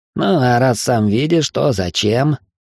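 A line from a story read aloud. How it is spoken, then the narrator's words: Nasal voice. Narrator (Russian): гнусаво произнес я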